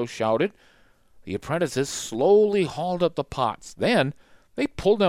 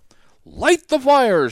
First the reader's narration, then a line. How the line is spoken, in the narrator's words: shouted Leonardo